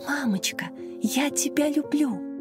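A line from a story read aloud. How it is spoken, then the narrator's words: Whispered, small child. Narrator (Russian): шептала ей на ухо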